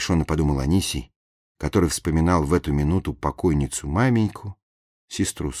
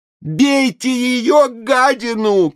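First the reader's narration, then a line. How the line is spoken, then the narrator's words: Shout. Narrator (Russian): крикнул Блинов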